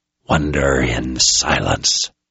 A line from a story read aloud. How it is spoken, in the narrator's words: he hissed